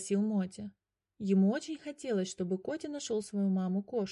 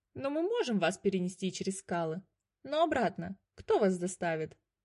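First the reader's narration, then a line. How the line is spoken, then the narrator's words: Laughing bird. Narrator (Russian): рассмеялась первая птица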